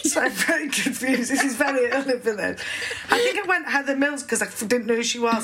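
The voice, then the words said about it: Speaks with a regional accent. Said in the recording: “It sounds nice in your accent, actually.”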